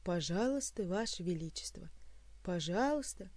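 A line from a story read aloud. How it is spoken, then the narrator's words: Sigh. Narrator (Russian): вздохнул придворный маг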